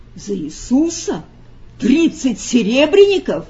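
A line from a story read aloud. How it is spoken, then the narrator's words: Shout of wild astonishment. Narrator (Russian): закричал он голосом дикого изумления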